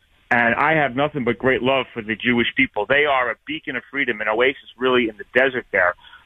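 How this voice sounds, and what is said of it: New York accent. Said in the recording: “I come from New York, as you may hear from my accent”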